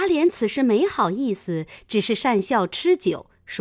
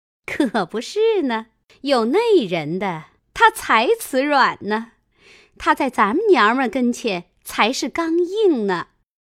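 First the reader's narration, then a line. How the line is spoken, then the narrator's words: Laughing. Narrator (Chinese): 凤姐笑道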